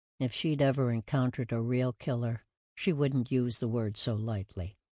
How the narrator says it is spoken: murmured

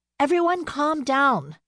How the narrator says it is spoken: called out, trying to restore some order

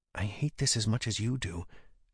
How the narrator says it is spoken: she whispered to me mentally

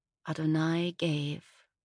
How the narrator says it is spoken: I whispered, pushing past the lump in my throat

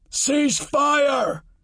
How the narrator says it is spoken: soldier shouted

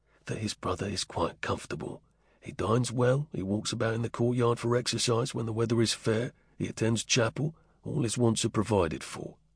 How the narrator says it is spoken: Will spoke almost in a whisper

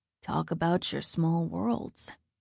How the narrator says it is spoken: He said in that ridiculously deep voice

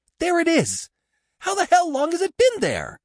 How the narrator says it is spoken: His voice rose excitedly

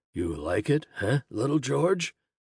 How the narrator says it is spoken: the man chuckled

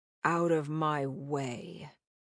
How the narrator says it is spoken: Lazar muttered

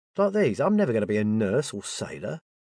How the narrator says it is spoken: he snorted

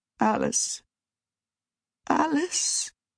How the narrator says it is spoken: Mama said, and it sounded like she was sobbing

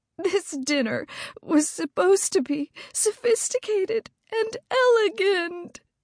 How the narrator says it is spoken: sobbed again

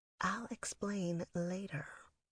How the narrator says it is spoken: I whispered

